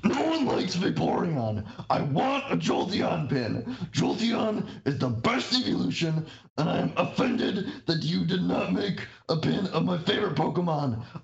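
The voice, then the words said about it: Loud all-caps shouting reading voice. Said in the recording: “This is all in caps, so that's why I'm about to do the voice”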